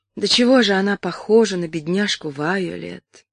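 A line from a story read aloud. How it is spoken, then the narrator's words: Sad. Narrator (Russian): проговорила она, печально покачав головой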